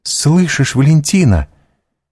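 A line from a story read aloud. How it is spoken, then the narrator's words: Exclamation. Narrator (Russian): воскликнула Гайда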